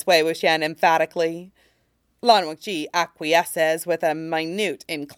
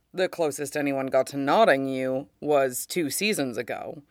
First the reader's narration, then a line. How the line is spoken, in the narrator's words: says the host